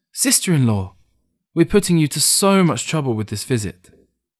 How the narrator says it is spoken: Ting exclaimed

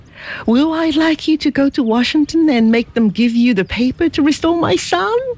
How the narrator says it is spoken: cried he

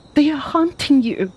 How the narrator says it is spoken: she cried

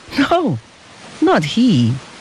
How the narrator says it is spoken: answered the father with a happy laugh

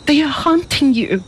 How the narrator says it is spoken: she cried

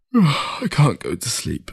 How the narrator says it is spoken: he said through a yawn

